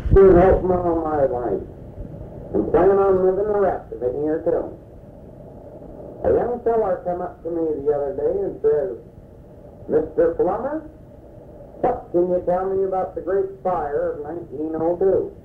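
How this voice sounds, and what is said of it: Put-on country accent. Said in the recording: “affects a country accent, which sometimes makes him a little difficult to understand”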